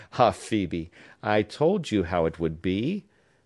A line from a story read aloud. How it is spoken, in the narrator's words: said the artist, with a half-melancholy laugh